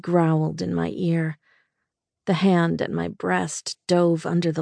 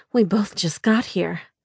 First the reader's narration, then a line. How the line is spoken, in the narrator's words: I said breathlessly